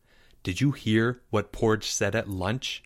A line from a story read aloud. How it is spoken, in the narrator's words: Leo whispered, once he was certain no one could overhear